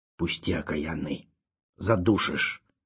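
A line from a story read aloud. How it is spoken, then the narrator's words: Hoarse wheeze. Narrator (Russian): прохрипел тот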